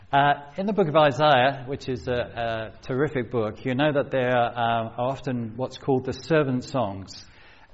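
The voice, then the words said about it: British accent, sometimes heard as Antipodean. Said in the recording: “I'm from the UK and grew up just outside the London area, sometimes people say I'm South African, sometimes they say I'm Australian”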